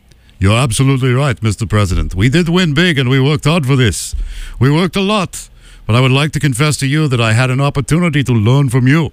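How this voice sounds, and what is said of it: Bad put-on Russian accent. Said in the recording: “I will speak as President Vladimir Zelensky in a bad Russian accent.”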